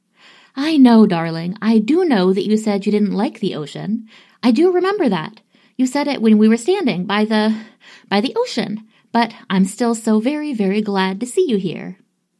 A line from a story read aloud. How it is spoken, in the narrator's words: Steed cuts her off quickly with